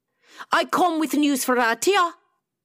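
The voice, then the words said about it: Scottish accent. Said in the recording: “a familiar Scottish accent”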